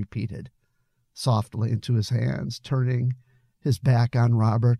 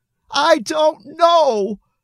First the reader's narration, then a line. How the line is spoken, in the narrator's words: yelled, trying desperately to hold back the tears, but they came anyway